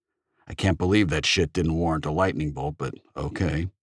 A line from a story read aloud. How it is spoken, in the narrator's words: she muttered